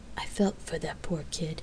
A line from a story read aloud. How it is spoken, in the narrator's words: she whispered